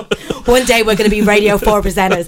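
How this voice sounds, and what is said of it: Put-on American accent. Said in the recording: “I don't know why I'm doing American accent all the time.”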